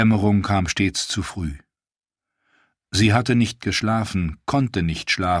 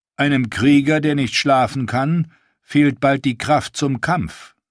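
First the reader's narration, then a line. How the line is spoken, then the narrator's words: Plain. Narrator (German): sagte er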